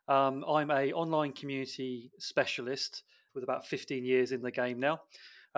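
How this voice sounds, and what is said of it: British English accent. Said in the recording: “my non-local accent. I'm from the UK.”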